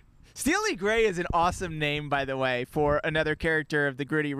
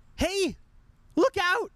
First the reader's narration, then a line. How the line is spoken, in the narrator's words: Frank cried sharply